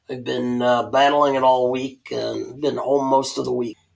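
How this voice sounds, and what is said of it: Voice affected by a cold. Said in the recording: “I apologize for my cold ... I know my voice isn't the best”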